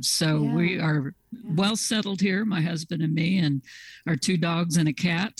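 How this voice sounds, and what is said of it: Slight Southern twang. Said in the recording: “a little twang of the South in your voice ... I grew up in Southeast Kansas, and I guess the twang is coming back.”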